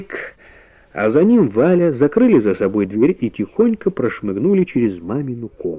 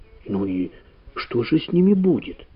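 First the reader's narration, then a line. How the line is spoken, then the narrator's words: Whispered question. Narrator (Russian): спросила шепотом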